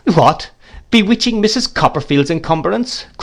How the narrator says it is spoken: cried the gentleman

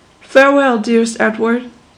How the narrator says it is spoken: said Rosalie

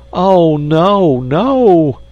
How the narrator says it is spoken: cried the agonized insect

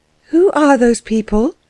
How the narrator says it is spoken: she asked Fritz in a voice that faltered

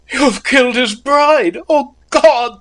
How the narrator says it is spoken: they cried

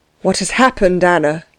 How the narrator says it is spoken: asked the princess uneasily

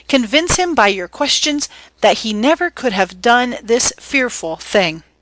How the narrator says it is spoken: she cried

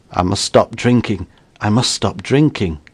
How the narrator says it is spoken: The Major muttered

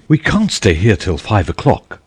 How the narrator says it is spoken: exclaimed Mrs

